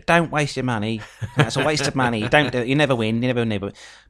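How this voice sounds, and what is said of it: Poor imitation of another person's voice. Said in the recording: “worst impression of Gemma ever”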